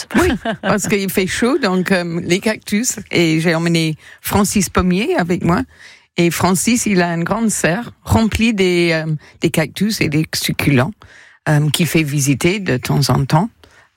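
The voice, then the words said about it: English accent speaking French. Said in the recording (French): “Vous entendez son délicieux accent anglais.”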